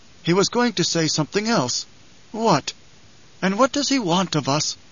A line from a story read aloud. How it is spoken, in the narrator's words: Howitt sighed